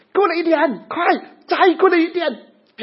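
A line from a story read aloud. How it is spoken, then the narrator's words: Shouted. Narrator (Chinese): 就跟对方喊了一声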